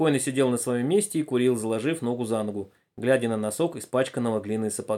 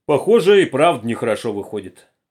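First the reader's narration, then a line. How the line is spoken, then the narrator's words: Sudden deep bass. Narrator (Russian): пробасил вдруг усатый рабочий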